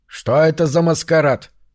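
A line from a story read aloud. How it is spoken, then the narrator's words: Grumbling question. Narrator (Russian): ворчливым тоном спросил он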